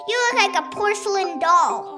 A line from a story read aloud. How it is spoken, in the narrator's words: this one grandma screaming